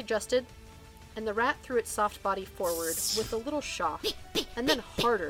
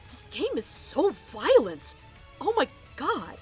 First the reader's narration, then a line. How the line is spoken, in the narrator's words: Wade gasped